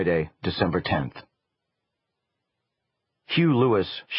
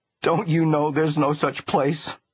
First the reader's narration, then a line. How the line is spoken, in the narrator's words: she cried